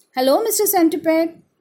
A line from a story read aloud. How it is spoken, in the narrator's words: Gus called out from the window, hoping to chat